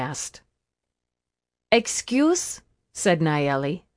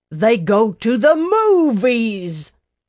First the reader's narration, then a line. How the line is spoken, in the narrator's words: the man shouted